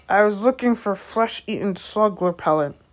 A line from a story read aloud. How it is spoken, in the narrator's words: growled Hagrid